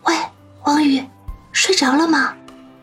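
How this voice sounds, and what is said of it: Hushed, lowered voice. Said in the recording (Chinese): “压低声音喊道”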